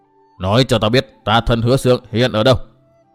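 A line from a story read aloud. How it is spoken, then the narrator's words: Icy, demanding female voice. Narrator (Vietnamese): Nữ quái lại cất giọng lạnh lùng băng giá, nhưng lần này trong giọng nói ấy lại như có vẻ yêu cầu nhiều hơn dọa dẫm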